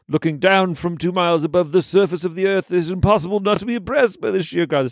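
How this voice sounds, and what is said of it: Poor David Attenborough impression. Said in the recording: “David Attenborough ... It's such a terrible impression.”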